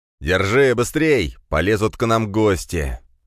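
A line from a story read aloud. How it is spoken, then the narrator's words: Shouted. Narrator (Russian): закричал Черепов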